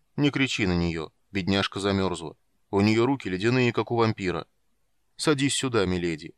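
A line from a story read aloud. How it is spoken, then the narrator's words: Awkward booming voice. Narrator (Russian): неловко прогудел он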